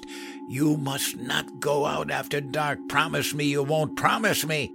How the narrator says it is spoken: She cried with her face in her hands, then grabbed me by the shirt and hissed

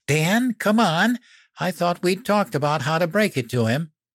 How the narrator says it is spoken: Mom squealed

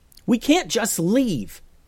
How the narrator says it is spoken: yelled Joseph

